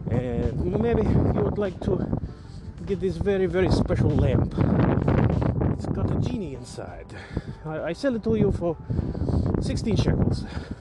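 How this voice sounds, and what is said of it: Deliberately bad put-on merchant accent. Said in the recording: “that's my very bad accent”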